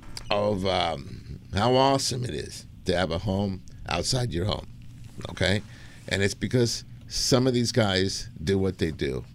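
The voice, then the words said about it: Emotional, choked-up voice. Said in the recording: “I can't do this. I'm getting emotional. Anyway, so I hope you guys can hear it in my voice”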